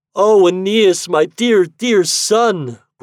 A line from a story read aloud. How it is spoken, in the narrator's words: groaned Daphne